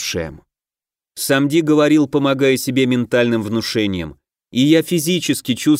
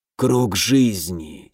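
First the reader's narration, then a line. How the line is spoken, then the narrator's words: Hoarse reply. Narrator (Russian): сипло отозвался Самди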